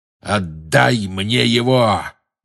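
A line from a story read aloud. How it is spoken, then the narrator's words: Growl close in ear. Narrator (Russian): прорычал ему в ухо чей-то голос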